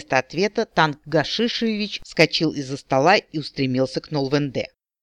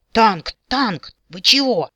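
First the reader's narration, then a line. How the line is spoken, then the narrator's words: Dwarf exclaiming. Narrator (Russian): воскликнул гном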